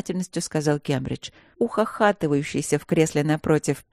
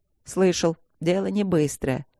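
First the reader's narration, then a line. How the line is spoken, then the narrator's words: Teary dog's snort. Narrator (Russian): хмыкнул пес, вытирая слезы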